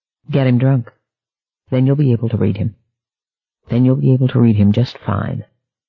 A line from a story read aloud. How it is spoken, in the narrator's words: A voice responded coldly